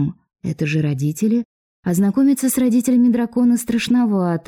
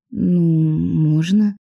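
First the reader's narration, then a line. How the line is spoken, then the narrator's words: Somewhat uncertain reply. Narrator (Russian): Несколько неуверенно ответила я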